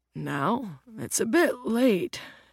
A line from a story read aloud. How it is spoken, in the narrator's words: his dad yawns